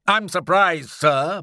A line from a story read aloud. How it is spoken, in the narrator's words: boomed Challenger